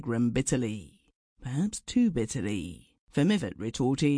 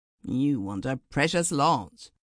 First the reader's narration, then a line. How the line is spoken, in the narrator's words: grumbled Mivart